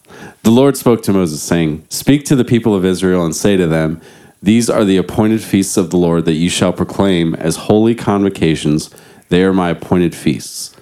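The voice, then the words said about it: Put-on radio announcer voice. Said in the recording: “I'm going to get my radio voice on now.”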